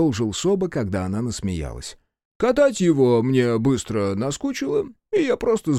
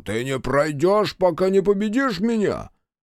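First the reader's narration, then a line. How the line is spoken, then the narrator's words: Yelling. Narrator (Russian): я заорал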